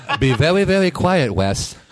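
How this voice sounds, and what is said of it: Elmer Fudd cartoon voice impression. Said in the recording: “Wes Welker's a good Elmer Fudd name ... That wasn't a very good impression.”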